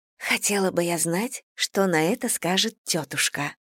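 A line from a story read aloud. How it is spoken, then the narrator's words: Whisper. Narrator (Russian): шепнула Дейзи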